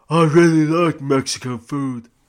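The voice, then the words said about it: Imitates another person's voice. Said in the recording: “that was me doing a Sly voice. It wasn't a very good impression.”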